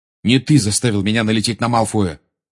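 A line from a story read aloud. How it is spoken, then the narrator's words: Angry reply. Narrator (Russian): сердито ответил Гарри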